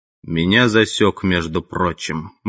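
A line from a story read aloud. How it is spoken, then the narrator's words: Gloomy speech, bear. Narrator (Russian): мрачно говорил медведь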